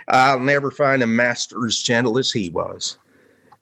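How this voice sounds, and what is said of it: Put-on Tennessee accent. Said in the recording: “Maybe this should be done in Tennessee accent”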